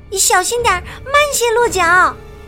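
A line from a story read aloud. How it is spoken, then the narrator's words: Loud shout. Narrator (Chinese): 一定要冲他大喊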